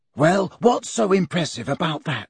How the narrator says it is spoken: whispered Ron, who for some reason looked annoyed

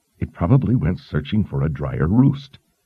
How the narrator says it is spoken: Kalin growled

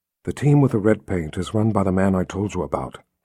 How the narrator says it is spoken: Kaelin whispered

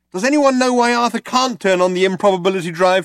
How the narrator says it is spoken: shouted Trillian

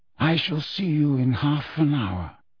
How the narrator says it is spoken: said Dumbledore quietly

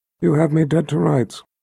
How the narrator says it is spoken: told the Emperor in a flat tone

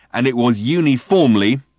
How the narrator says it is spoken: he snarled

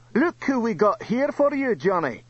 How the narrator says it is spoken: Thor shouted

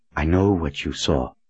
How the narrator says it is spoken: he said in a soft voice

